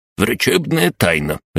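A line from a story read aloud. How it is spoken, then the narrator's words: Doctor barking. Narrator (Russian): рявкнул доктор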